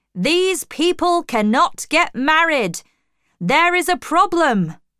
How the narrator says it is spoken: one of the men shouted

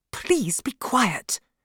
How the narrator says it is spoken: answered in an angry whisper

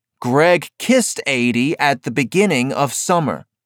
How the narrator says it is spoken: Meredith said

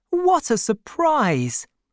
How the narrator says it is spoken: cried

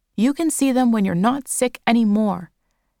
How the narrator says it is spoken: shouted Nana Sewa

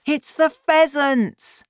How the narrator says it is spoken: I cried

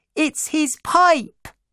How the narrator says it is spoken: shouted my little sister

